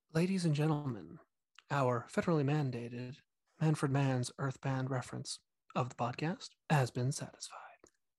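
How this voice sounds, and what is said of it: Mock NPR radio announcer voice. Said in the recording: “Should I use my rock and NPR voice? ... That was actually excellent.”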